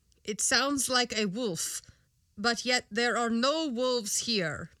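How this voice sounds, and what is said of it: Very strange put-on accent. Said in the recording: “I've now given Johan a very strange accent.”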